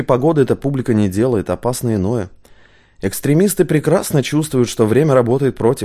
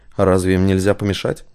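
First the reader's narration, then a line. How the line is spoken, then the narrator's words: Low, calm question. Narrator (Russian): низким голосом спокойно спросил черноволосый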